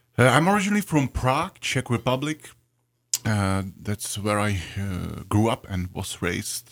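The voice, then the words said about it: European accent. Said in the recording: “I love the way you say Bach ... I'm sorry for my European accent.”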